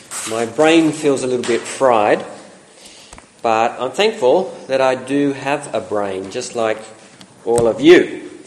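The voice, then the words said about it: Congested voice with a cold. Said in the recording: “You can probably tell from my voice, I've got a bit of a cold”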